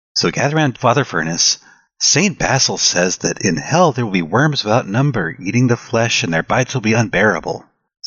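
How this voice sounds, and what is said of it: Children's storybook narrator voice. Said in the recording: “Let's do it in the children's narrator voice.”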